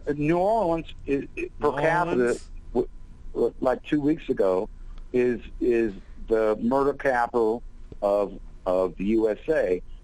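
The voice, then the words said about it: Southern Louisiana twang. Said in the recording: “I hear his twang.”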